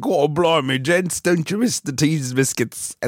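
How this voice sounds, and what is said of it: Bad put-on British accent. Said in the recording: “because it was a bad accent”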